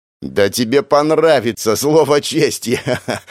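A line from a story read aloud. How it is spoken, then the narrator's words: Laughing. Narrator (Russian): обещал ей один из балбесов сквозь смех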